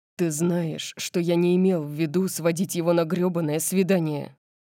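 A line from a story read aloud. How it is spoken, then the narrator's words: Growled. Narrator (Russian): прорычал он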